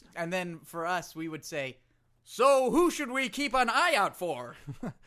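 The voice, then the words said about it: Put-on American accent. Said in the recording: “That's me doing an American accent.”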